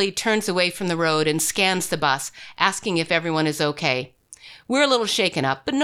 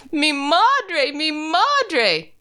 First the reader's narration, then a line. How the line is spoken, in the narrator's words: Tomas begins moaning